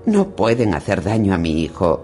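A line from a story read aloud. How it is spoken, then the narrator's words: Exclaiming. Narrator (Spanish): exclamó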